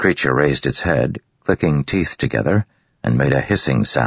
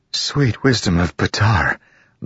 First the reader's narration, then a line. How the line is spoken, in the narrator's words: the woman breathed